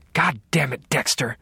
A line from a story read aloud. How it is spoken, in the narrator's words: she hissed